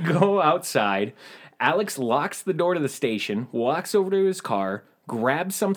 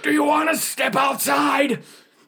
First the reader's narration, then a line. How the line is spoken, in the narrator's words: Alex screams